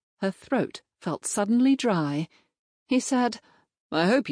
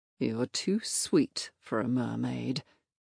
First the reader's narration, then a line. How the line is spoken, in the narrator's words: he murmured